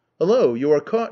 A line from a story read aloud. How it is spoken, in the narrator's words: he exclaimed